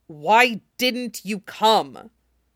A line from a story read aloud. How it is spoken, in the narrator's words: He clenched his jaw and snarled down